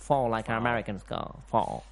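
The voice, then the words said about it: Put-on American accent. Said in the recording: “That was my American accent.”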